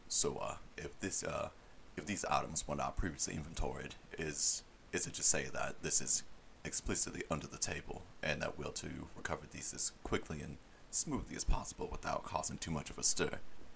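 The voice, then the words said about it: Speaks in a put-on accent. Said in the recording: “I'll say it in my accent”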